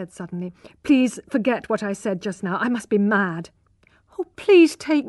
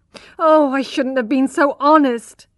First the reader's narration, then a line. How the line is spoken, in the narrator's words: sobbed Iz